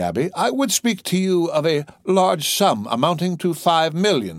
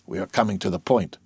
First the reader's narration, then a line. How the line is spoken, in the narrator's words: whispered the governor